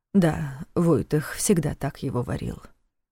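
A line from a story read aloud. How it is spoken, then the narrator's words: Quiet explanation. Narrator (Russian): тихо пояснил ему Нев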